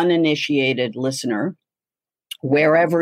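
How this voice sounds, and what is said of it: Usual voice. Nothing is said of it.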